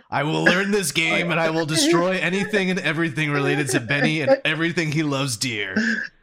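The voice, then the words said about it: Imitates another person's voice. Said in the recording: “Was that a good mic impression? ... Pretty much. ... was a good mic impression. Yeah, no, that was on point”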